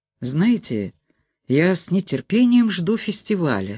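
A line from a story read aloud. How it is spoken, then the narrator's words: Forced cheerful exclamation. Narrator (Russian): с наигранной бодростью воскликнул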